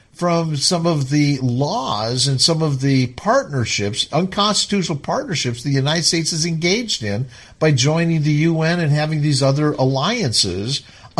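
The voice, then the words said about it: Talking loudly. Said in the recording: “let me kind of bring it down a little bit so I'm not talking so loud”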